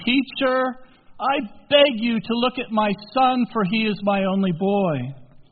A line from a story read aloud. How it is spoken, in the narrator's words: a man from the crowd shouted, saying